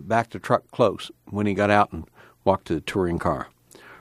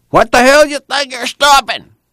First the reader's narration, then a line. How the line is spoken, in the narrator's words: the last driver yelled